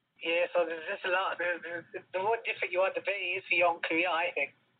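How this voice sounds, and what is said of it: Unusual regional UK accent. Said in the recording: “your accent doesn't sound like anything I'm familiar with ... it's not Scottish ... the accent ... everyone sounds different from everyone else”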